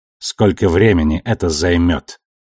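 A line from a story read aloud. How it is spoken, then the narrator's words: Dry inquiry. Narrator (Russian): сухо осведомился Ашфорд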